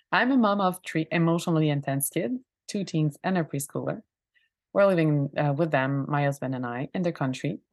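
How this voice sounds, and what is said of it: French-Canadian accent in English. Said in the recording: “a French-Canadian that explains the accent and the English mistakes”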